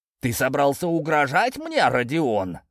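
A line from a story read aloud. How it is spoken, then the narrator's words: Menacing, emperor. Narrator (Russian): грозно произнес император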